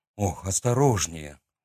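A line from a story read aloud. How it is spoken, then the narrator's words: Breathless exhale. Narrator (Russian): выдохнул он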